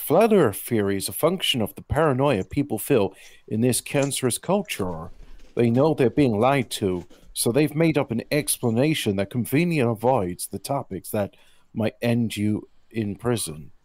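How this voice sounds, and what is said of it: Imitation of a listener's voice. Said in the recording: “I'm going to try and do his voice.”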